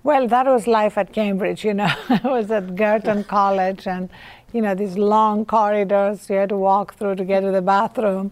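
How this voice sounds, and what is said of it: Heavy foreign accent. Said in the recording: “my heavy accent, which was a, um, very much a subject of ridicule”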